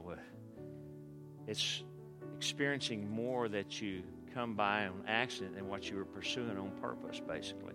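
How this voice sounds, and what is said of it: Texas accent. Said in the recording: “Am I pronouncing that with a Texas accent? ... you guys up north may say it different”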